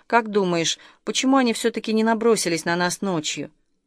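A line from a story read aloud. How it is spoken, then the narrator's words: Quiet question. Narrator (Russian): Артем негромко спросил Шевцова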